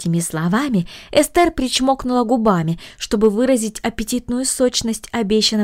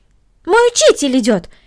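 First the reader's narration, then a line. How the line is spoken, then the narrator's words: Exclamation. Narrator (Russian): воскликнула Корнели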